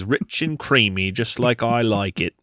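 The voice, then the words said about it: New Zealand accent imitation. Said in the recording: “your New Zealand accent, spot on”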